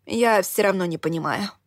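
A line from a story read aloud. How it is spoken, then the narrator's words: Sighing. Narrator (Russian): вздохнула я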